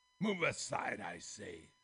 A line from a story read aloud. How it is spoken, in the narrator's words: thundered